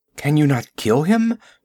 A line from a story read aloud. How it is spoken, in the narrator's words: she panted